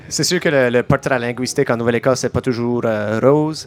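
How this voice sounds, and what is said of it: Slight Acadian French accent. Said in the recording (French): “vous avez probablement remarqué qu'on a peut-être un léger accent ... Pas un accent, un accent, comme que nous autres on dit”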